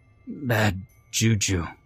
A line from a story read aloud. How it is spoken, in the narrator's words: sputter